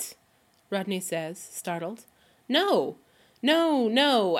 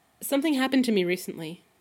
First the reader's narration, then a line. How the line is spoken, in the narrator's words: he blurts out